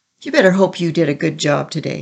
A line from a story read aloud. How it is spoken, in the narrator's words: sneered